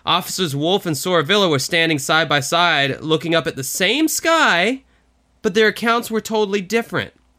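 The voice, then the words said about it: Mild northern accent. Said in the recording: “My little northern accent's kind of kicking in here.”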